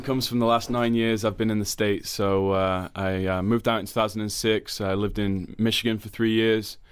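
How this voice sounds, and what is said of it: American twang, not Leicester accent. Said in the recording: “That doesn't sound like a Leicester accent to me ... where do you get the twang from”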